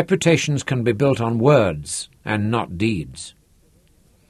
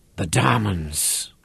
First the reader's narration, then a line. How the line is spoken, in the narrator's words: His voice was low and sibilant, as the hiss of one of those deadly little horned adders of the desert